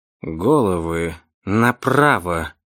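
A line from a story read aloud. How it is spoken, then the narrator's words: Quiet command. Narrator (Russian): тихонько скомандовал человек в картинках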